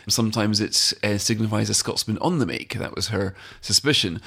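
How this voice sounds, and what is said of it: Unusual Scottish accent, odd vowels. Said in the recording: “my accent is a little bit unusual, strikes a lot of Scots as irritable vowel syndrome rather than an accent”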